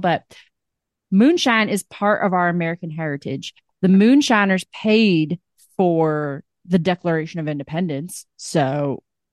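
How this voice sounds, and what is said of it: Generic American country accent. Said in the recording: “The accent is so specific. ... I'm not nailing it. I'm just doing a generic country accent”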